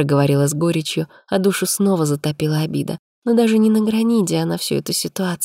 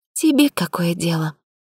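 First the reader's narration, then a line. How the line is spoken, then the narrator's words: Tired. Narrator (Russian): сказала устало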